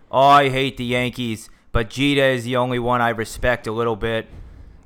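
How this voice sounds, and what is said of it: Put-on regional accent. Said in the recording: “I like that accent”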